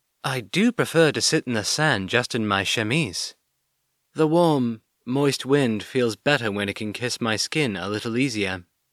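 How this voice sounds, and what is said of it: Sly character voice. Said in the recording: “in a somewhat slyer voice”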